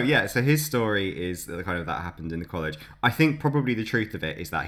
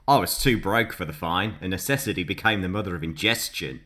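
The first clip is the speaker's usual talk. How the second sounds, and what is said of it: Put-on Australian accent. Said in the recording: “I don't know what particular Australian accent he had, but it probably wasn't that one.”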